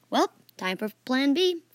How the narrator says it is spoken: Fan said anxiously

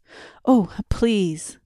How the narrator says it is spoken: The young man said anxiously, between suppressed coughs

